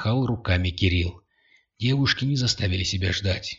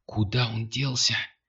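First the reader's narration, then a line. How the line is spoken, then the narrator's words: Whisper. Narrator (Russian): прошептала Кристина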